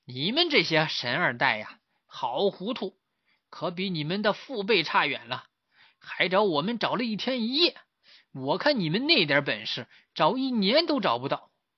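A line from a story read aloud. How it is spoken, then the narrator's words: Laughing heartily. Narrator (Chinese): 追影大师哈哈大笑说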